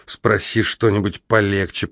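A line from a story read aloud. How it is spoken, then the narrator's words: Nervous grumble. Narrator (Russian): проворчал я, нервно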